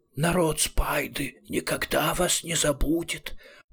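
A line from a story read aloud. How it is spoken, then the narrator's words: Emotional tearful hiss. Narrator (Russian): прочувствованно прошипел Рамкег, и из всех его 12 глаз полились слезы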